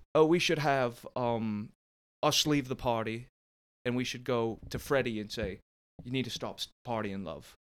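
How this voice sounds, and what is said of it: Bad put-on British accent. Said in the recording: “I'm going to do a bad British accent... so that was actually Southern... that was kind of British”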